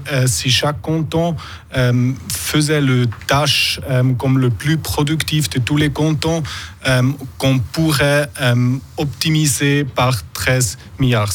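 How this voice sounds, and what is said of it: Slight accent in French. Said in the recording (French): “on entend un petit accent.”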